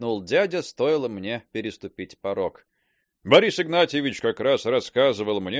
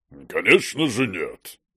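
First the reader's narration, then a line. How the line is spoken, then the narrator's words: Deep male voice. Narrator (Russian): пробасил мужчина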